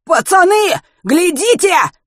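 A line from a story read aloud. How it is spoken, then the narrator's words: Sudden frantic yell. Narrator (Russian): вдруг истошно завопил Пушкин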